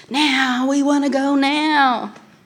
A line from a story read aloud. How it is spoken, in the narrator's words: In unison, they shouted